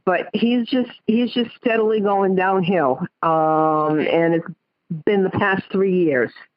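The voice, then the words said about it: Rhode Island accent. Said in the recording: “I've got the Rhode Island accent. ... I thought you said mock”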